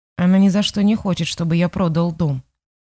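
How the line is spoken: Quiet complaint. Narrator (Russian): тихо пожаловался Лузовский

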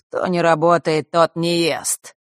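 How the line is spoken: Mocking. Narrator (Russian): насмешливо произнесла Хронимара

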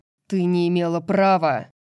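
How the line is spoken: Echoing growl. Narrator (Russian): Снова прорычал Ризанд, его голос эхом отразился от камня

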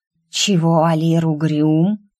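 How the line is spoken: Hissed. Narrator (Russian): зашипела Куракава

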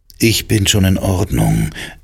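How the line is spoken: Calm reply. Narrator (German): erwiderte ich ruhig

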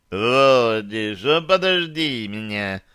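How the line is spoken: Drunken call. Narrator (Russian): Пьяным голосом окликнул меня Дирон

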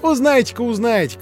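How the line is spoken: Boys laughing. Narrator (Russian): засмеялись мальчики

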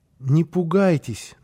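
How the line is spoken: Timid. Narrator (Russian): начал он робко

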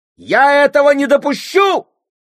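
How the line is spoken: Shouting. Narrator (Russian): кричала она при всех

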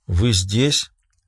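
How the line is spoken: Muttered. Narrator (Russian): пробормотала секретарь

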